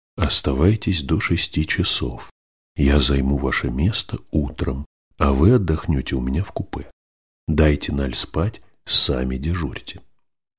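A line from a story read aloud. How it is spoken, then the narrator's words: Whispered. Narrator (Russian): лорд шепнул мнимому секретарю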